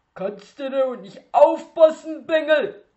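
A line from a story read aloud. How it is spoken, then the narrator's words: Shouted after someone. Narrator (German): schrie er Bruno hinterher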